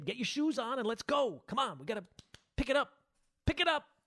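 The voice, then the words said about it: Yelling like scolding a child. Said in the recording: “It's like I'm yelling at my kid.”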